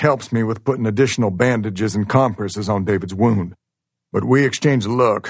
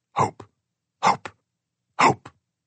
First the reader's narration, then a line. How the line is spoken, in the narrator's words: he whispers